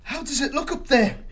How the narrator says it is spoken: he asked anxiously

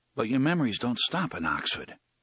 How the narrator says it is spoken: he said softly

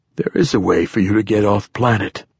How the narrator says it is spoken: the poet said in a tired voice

